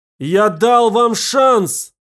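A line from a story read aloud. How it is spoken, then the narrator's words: Shouting. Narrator (Russian): крикнул Роуэн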